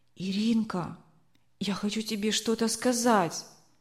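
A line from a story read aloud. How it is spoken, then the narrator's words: Whisper. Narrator (Russian): прошептала она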